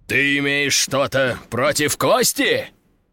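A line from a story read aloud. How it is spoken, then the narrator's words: Growled. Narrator (Russian): прорычал Ржевский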